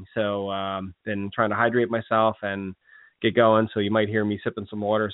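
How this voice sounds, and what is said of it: Slightly hoarse voice. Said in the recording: “I do have a little bit of a cold, so if you do hear me coughing or my voice sounds a little hoarse,”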